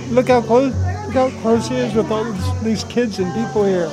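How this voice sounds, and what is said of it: Choked-up, tearful voice. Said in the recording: “getting choked up, like crying.”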